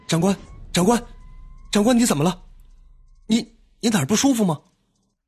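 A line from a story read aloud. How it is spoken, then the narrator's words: Anxious shout, young voice. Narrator (Chinese): 一个年轻的声音焦急的叫喊起来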